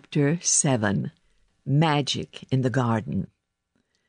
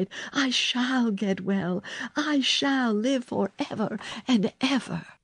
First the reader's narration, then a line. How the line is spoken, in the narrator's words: he cried